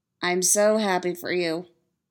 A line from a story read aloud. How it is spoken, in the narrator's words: Styles says, flatly